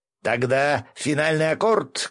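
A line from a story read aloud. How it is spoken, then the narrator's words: Shouted. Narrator (Russian): крикнул Гензо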